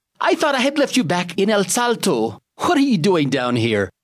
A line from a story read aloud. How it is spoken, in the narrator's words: exclaimed